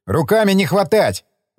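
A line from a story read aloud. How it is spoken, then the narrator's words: Quick shout. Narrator (Russian): успел крикнуть он мне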